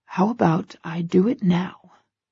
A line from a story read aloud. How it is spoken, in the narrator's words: He whispers with a salacious smile